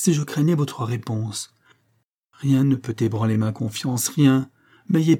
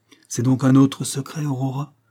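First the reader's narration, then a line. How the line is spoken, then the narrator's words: Reproachful. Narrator (French): dit d'un ton de reproche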